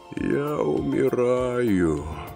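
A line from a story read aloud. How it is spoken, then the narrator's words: Moaning sick person. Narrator (Russian): простонал больной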